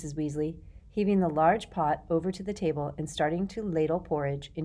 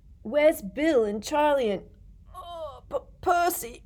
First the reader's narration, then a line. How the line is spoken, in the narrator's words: said George, failing to stifle a huge yawn